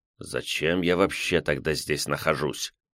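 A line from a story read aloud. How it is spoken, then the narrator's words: Displeased mutter. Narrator (Russian): недовольно пробурчал Седой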